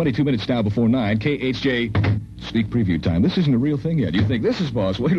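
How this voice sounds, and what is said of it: Usual voice. Nothing is said of it.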